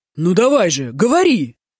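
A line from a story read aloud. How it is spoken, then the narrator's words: Impatient shout, fat man. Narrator (Russian): нетерпеливо крикнул толстяк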